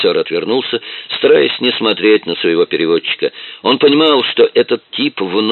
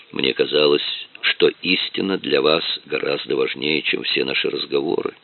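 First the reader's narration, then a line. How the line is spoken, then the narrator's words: Calm. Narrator (Russian): спокойно заметил Дронго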